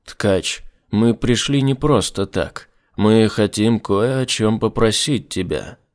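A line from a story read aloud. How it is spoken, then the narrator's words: Firm voice. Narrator (Russian): твердым голосом сообщил Рудгутер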